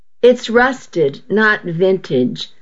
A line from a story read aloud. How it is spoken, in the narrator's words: I chuckled